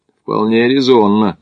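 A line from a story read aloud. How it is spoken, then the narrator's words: Skeptical grunt. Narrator (Russian): хмыкнул Макдональд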